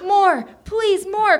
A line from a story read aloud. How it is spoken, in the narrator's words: cried Tony